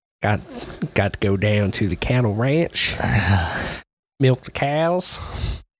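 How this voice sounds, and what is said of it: Wild West cowboy voice. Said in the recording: “great impression of what the Wild West was all about”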